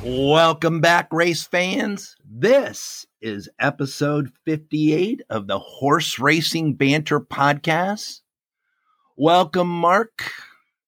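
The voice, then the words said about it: Raspy, strained voice. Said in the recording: “I've got a raspy voice today. Traveling, screaming, yelling, bad air, all kinds of stuff has caused a throat impairment.”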